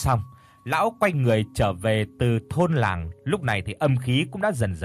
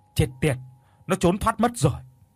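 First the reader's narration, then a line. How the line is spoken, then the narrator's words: Angry old man. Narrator (Vietnamese): Lão đạo sĩ lúc này thì tức giận nói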